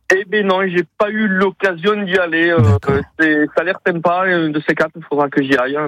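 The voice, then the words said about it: Toulouse French accent. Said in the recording (French): “avec le bel accent toulousain”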